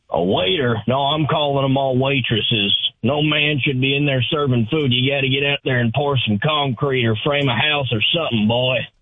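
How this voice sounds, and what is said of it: Gruff old man voice. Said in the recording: “my old man impression.”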